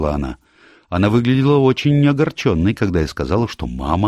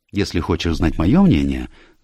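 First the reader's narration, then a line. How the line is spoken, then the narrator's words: Thoughtful. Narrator (Russian): задумчиво произнесла Джулия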